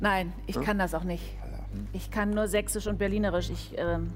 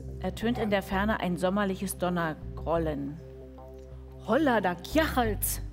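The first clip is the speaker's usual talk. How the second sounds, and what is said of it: Put-on Saxon accent. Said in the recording (German): “Lies es doch mal auf Sächsisch.”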